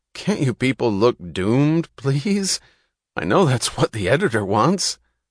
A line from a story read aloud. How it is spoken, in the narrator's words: A photographer said, laughing